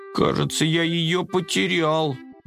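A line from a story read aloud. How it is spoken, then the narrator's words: Bewildered admission. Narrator (Russian): растерянно признался Коржик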